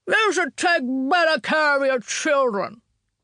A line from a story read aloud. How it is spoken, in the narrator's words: he bellowed after us